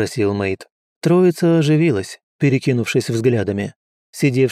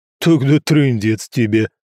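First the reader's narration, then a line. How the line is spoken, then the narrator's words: Loud laughter. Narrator (Russian): расхохотался Орра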